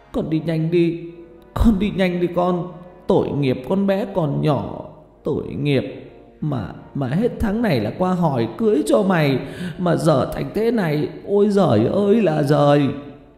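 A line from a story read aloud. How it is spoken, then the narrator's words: Sobbing. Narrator (Vietnamese): Bà Lệ vừa nói vừa khóc nức nở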